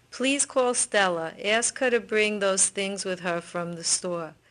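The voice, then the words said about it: Distinct Brooklyn accent. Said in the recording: “this Brooklyn speaker ... It's a very distinct accent”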